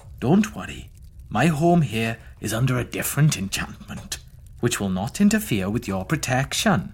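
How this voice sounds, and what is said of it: Sing-song Welsh Valleys accent. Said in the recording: “a lovely Welsh man from the Valleys ... It's a sing-song accent ... a Welsh Valleys accent ... That's quite good ... That was good.”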